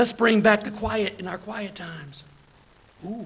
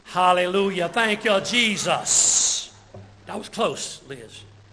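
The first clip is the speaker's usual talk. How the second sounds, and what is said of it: Put-on churchy holiness accent. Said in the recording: “I don't know what accent that is. I'm going to call it the holiness accent.”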